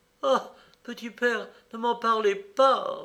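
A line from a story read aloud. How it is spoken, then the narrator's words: Trembling voice. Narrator (French): répondit le diacre d'une voix tremblante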